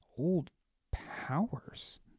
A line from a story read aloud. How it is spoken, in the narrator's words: Baz murmured